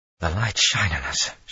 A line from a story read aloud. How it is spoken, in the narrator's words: she breathed